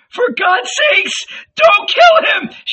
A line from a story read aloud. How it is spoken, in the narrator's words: she cried in her high voice